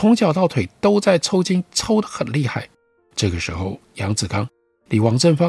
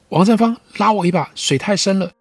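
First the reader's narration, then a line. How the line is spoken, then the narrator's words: Calling out from nearby. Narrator (Chinese): 杨子刚在不远处叫着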